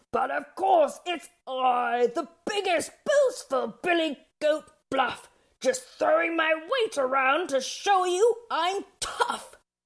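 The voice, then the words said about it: Grandiose, hoarse character voice. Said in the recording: “In his most grandiose voice ... He had this rather unappealing hoarse voice”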